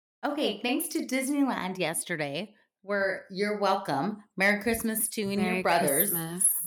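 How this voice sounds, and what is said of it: Hoarse, partially lost voice. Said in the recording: “You sound like a smoker. ... my voice will be partially lost ... I can't even cackle.”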